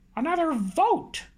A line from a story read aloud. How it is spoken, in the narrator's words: piped up